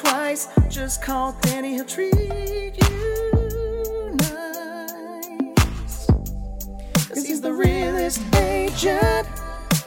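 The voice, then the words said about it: Singing in falsetto harmony. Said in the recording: “That was a little live falsetto harmony there. That was off the cuff.”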